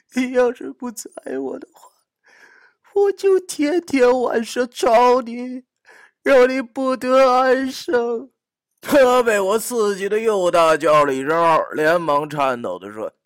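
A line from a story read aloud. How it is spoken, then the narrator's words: Fake tearful voice. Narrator (Chinese): 我又装成一副哭腔对他说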